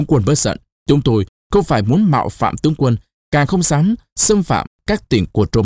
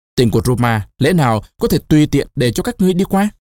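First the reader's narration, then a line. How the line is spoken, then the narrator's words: Raised voice. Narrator (Vietnamese): Caesar cao giọng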